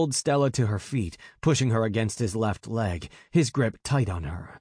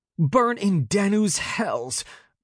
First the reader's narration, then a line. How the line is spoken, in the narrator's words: Bast snapped